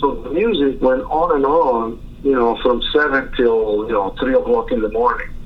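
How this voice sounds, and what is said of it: Italian-accented English. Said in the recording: “I have my own Italian accent”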